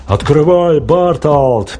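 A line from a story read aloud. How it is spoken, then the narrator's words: Booming voice. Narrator (Russian): прогремел чей-то голос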